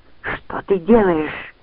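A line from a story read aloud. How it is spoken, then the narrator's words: Hiss while struggling. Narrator (Russian): прошипела Лианна, извиваясь в его железных объятиях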